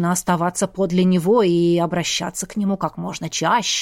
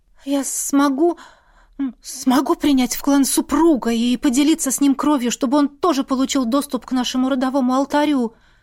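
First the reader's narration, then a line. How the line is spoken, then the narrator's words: Excited clarification. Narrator (Russian): взволнованно уточнила я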